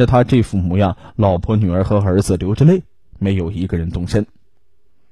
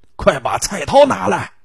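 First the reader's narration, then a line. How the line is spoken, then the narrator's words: Frantic screaming while struggling. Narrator (Chinese): 邱新华一边拼命的挣扎，一边对媳妇孩子狂喊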